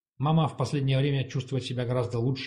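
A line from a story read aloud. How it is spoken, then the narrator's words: Plain. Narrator (Russian): сказал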